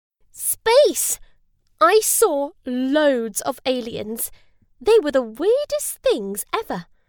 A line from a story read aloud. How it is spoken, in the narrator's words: Susie said happily